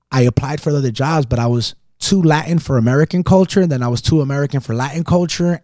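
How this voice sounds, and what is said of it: Caribbean-sounding Latin American accent. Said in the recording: “yes, I'm Salvadorian, but my accent is more Caribbean”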